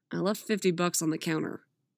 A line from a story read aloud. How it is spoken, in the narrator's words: Jason grumbled